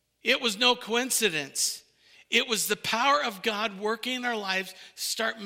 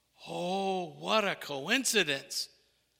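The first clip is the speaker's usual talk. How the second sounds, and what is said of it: Sarcastic tone. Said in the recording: “I'm being sarcastic”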